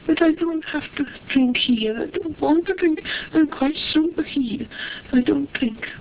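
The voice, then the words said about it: Scottish accent. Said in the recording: “I lived in Ireland all those years, but I never lost my Scots accent, did I?”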